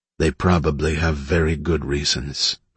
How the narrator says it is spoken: Mike said softly

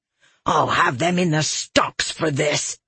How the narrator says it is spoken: she snarled

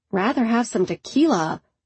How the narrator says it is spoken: Ainsley muttered

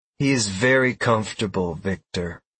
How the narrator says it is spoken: Galmine replied in a suggestive voice

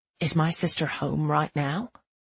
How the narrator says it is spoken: He whispers

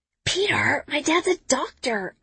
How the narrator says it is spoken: I whisper back

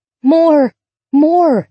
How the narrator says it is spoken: it would plead

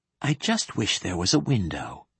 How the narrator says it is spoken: whispered Leigh Hunt

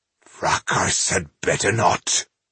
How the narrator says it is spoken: grunted Ireheart softly

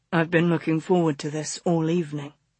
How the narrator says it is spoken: he murmured

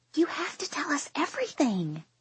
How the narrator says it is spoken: Quinn whispers

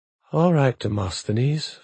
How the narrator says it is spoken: Vanessa Murakuma said quietly

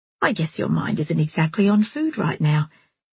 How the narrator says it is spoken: Jilly said kindly

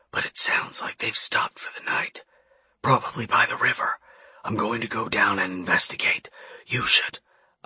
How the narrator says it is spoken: I whispered

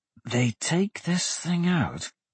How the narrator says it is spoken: Dante hissed

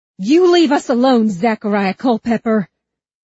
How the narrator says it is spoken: She shouted

